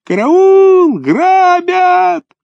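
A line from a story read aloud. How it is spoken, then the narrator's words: Shrill high-pitched scream. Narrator (Russian): Вася Чесноков заерзал вдруг ногами по снегу и закричал тонким пронзительным голосом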